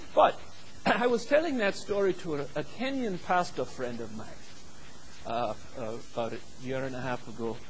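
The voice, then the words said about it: Mock British-Nigerian accent. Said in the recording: “I have adopted the mock British / Nigerian accent in all of my teaching ... I could have come here today and used my American accent ... I'm so into this after 4 weeks, just bear with me”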